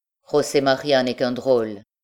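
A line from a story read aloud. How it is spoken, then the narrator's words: Cold stranger's voice. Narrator (French): dit froidement l'étranger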